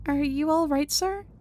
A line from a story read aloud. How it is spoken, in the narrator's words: I meekly but sincerely ask